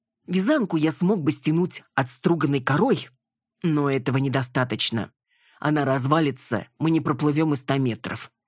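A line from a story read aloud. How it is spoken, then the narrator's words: Plain. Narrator (Russian): ответил ей Иван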